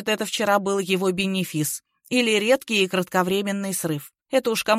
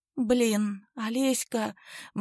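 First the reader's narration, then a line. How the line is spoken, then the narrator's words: Impulsive sigh. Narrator (Russian): Маруся порывисто вздохнула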